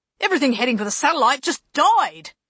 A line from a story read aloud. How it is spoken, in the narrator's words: he bellowed